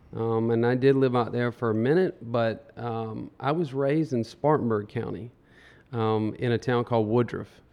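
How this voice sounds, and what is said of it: Upstate South Carolina accent. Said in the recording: “I've got a huge upstate, and that's why the accent is. Everyone's like, "Are you from Charleston?"”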